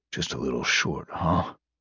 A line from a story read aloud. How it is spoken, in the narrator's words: Randedly mumbled, frowning with a deep sense of unwillingness